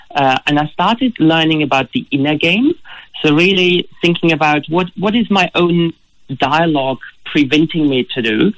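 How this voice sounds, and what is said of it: German accent, often heard as South African. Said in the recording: “As you can hear from my accent, originally I'm not Australian. I come from Germany. ... I wouldn't have guessed Germany. ... most people put me into South Africa.”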